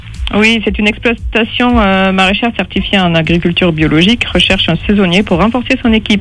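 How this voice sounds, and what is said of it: Slight southern French accent. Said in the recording (French): “Il y a un petit accent chez vous ... vous avez un accent? ... Un petit accent du sud. Ah ouais, ça s'entend un tout petit peu.”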